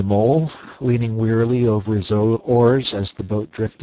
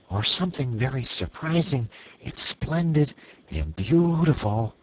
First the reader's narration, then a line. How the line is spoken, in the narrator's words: murmured the rat